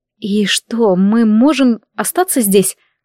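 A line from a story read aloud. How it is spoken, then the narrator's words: Timid question. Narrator (Russian): робко спросила я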